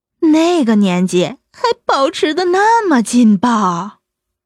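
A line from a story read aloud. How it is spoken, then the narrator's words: Sincere admiration. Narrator (Chinese): 青莲由衷的赞叹着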